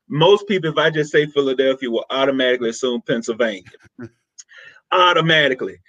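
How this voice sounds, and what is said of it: Southern Mississippi accent. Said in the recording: “not with this accent am I from Pennsylvania ... I grew up in a little town, Philadelphia, Mississippi”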